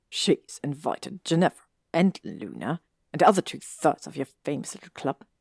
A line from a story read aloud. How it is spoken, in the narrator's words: he said with a small sneer